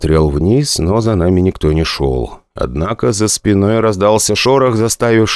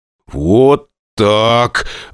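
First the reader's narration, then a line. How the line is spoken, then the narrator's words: Strained, forced out. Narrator (Russian): выдавил я из себя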